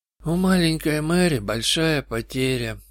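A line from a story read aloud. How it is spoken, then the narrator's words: Sorrowful mutter. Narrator (Russian): пробормотал он горестно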